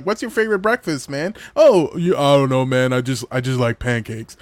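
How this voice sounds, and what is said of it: Imitates another person's deep voice. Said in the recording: “my fake impression of you, because I can't go that low”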